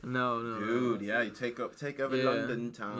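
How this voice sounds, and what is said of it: Put-on accent, drifting Australian. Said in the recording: “I don't even know what this accent is. This is more like Australian. Now it's Australian.”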